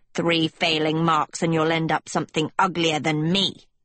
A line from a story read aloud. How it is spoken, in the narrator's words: Manley spat